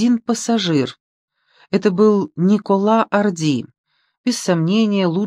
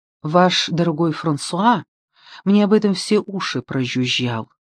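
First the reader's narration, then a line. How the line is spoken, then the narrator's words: Plain. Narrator (Russian): сказала Мари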